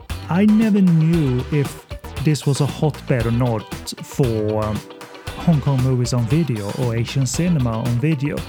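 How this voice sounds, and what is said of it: Swedish accent in English. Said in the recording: “I'm from Sweden, so excuse the accent”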